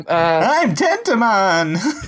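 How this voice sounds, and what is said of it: Cartoon character voice impression. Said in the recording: “That's a really good interpretation there. That's a good impression ... my Tentomon impression”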